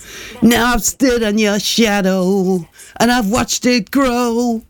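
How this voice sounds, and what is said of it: Sung imitation of another singer. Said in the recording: “I'll sing it to you ... I'll do my best imitation of who it is ... They were a duo ... they're Scottish”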